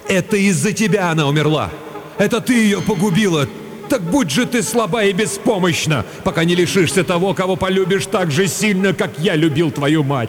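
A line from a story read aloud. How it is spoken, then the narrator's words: Loud grief-stricken cry. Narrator (Russian): Отец Кирен так сильно любил свою жену, что когда ему сообщили печальную весть и показали дочку, он громко закричал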